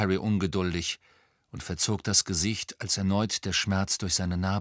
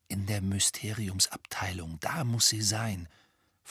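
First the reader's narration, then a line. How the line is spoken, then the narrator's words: Whisper. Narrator (German): flüsterte Harry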